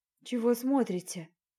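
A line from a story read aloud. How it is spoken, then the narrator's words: Gloomy, displeased question. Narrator (Russian): Мрачно поинтересовалась я, совсем не радуясь тому, что меня видят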